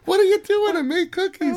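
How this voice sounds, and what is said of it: Imitates another person's voice. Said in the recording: “she talks like your mother.”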